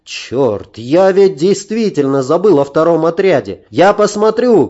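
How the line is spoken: Shout. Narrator (Russian): крикнул я друзьям

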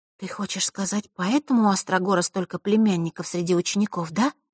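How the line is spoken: Quiet, serious. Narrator (Russian): тихо произнесла Василиса, мигом уловив серьезность темы

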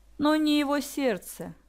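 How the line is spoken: Grim smirking remark. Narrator (Russian): мрачно усмехнулась Василиса

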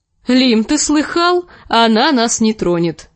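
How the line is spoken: Laughing. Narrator (Russian): засмеялся рыжий лучник

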